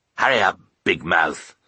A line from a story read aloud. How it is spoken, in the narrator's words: he growled at Sunny